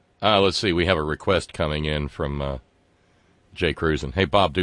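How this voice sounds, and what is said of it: Usual voice. Nothing is said of it.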